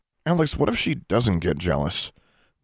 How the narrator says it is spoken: David muttered nervously

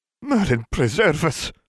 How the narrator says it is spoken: Robards exclaimed in horror

